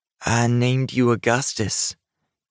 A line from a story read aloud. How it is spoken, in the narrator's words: said, slowly melting into tears